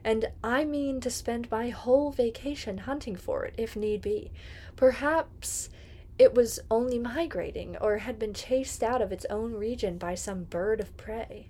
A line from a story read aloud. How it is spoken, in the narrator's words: added desperately